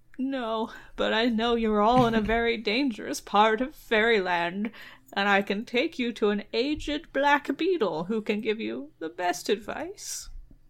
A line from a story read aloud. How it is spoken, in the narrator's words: the dragonfly says, mournfully